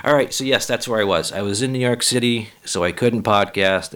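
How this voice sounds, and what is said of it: Hoarse, croaky voice. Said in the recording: “my voice is a pony ... I still have a frog in my throat ... You're feeling a little hoarse.”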